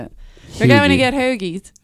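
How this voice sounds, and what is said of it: Put-on South Philly accent. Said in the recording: “That's how you do the South Philly accent.”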